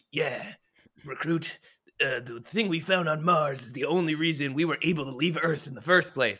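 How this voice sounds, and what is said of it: Imitates a ship captain character's voice. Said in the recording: “good Anderson impression.”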